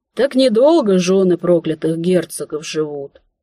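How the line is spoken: Sighing. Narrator (Russian): вздохнула она

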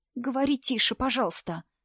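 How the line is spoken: Pleading whisper. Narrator (Russian): сказала Инна шепотом, почти умоляюще

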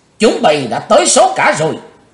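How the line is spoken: Loud shout. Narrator (Vietnamese): hét lớn

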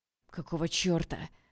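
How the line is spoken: Growled while struggling. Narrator (Russian): прорычал Олег, пытаясь скинуть с себя противника

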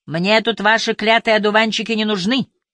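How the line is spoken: Angry distant shout. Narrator (Russian): гневно прокричал через буковую изгородь

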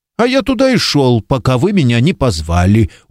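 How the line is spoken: Sullen mutter. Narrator (Russian): угрюмо пробурчал Пюэрос

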